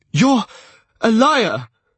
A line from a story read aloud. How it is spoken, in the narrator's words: his voice cracked